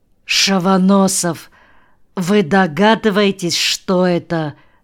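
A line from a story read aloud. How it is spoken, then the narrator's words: Muffled, hollow voice. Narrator (Russian): глухо спросил он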